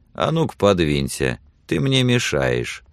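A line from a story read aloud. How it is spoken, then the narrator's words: Calm reply. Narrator (Russian): спокойно отвечал Билли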